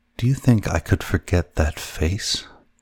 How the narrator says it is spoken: She murmured

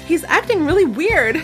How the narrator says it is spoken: she exclaimed

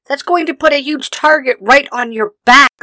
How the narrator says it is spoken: Leafa shouts

